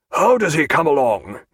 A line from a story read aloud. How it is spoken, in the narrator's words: he asked in a hoarse voice